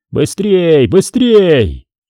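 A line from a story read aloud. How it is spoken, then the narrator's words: Urgent shouting. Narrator (Russian): Командиры торопили, кричали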